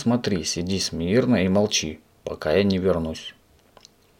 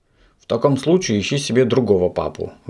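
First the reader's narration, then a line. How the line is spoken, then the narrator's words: Indignant speech. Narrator (Russian): Возмущенно проговорил господин Пепперминт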